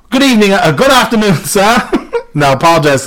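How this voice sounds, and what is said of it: Put-on accent shifting Jamaican to English. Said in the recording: “My accent's going to go from Jamaican to English to something else ... I cannot hold an accent”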